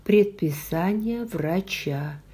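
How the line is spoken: Quiet but firm. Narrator (Russian): сказала я тихо, но твердо

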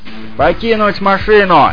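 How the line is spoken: Shouted. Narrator (Russian): Я прокричал

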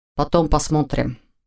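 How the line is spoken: Quiet reassurance. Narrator (Russian): так же тихо заверил его Войтых

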